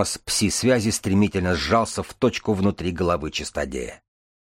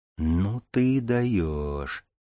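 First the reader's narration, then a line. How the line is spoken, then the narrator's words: Low female voice. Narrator (Russian): проговорила девушка низким голосом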